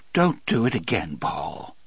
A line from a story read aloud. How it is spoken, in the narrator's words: Elaine said in a broken voice